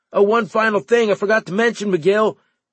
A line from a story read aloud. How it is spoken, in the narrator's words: Cooper shouted to me